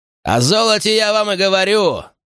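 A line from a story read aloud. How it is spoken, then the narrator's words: Exclaimed. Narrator (Russian): воскликнул Олдериншоу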